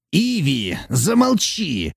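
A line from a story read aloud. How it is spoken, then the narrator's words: Menacing shout. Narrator (Russian): крикнул Абаддон так грозно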